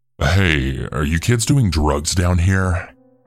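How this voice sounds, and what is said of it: Low raspy voice. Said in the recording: “in a low raspy voice.”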